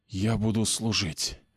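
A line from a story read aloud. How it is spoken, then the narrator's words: Exhaled. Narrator (Russian): выдохнул он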